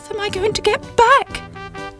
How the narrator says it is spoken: cried Sybil

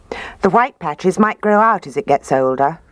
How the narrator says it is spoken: Daddy said

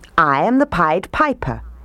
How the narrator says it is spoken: he said

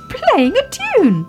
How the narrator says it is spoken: cried Baby Ted

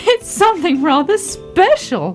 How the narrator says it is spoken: laughed Daddy Ted

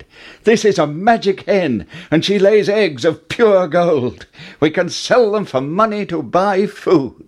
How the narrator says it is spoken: Jack cried

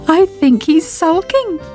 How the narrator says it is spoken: giggled Sybil

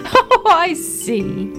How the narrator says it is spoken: laughed Mummy Ted

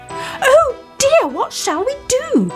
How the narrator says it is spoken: they all cried

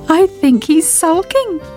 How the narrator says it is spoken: giggled Sybil

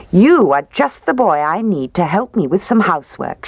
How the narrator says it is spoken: she said

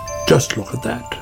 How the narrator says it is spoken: said Otter

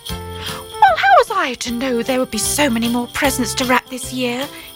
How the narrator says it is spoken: he replied

